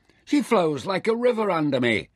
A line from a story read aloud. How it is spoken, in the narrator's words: Nefer shouted with delight